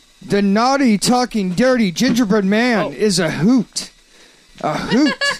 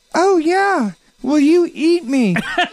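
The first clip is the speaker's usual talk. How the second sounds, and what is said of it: Talking gingerbread toy character voice. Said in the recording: “Do it in the voice... Do a voice.”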